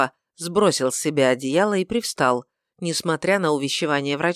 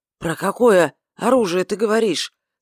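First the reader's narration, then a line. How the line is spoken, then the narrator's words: Hoarse question. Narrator (Russian): спросил он хриплым голосом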